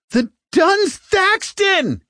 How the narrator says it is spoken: he shouted now

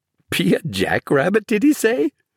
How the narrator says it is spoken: Peter also began to giggle

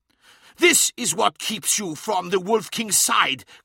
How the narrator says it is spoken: cried Skarsen

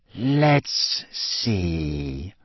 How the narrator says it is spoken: said in his silkiest voice

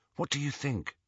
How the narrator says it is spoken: he asked Hermione

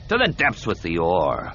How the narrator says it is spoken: Cole snarled

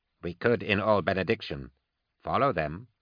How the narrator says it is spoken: said Unworth quietly

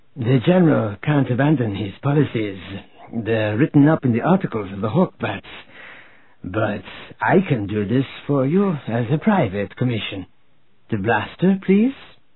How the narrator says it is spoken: said in her husky Seku voice

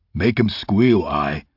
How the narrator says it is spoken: he said in a deep voice

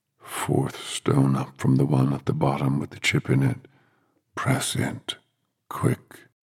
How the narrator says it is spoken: In a strange, deep voice that was nothing at all like his usual voice, but to Dennis that voice sounded weirdly familiar, Thomas said

